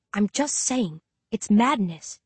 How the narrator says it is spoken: I whisper

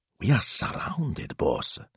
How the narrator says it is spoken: Smilzo whispered, shuddering

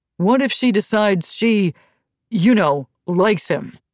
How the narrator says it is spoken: Asha laughed out loud

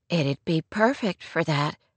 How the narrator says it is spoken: Rory murmured

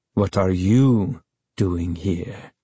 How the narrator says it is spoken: He asked softly, his voice as cold as his eyes

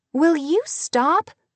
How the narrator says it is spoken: she cried

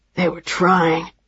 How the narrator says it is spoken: he said, his voice ragged

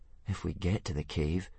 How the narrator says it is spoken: said Hiccup nervously

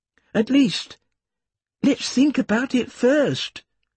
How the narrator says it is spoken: Tom pleaded

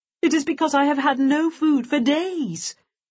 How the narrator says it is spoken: Hyena howled

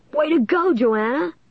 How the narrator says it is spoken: Lanny cried

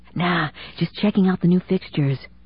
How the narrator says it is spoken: he whispered loudly

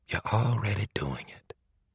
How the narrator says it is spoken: she said, her voice so low he could barely hear it

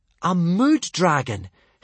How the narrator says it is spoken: Hiccup exclaimed in astonishment

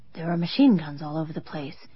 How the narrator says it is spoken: Joe whispered in my ear

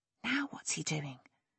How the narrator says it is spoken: Lexi breathed in Nick's ear

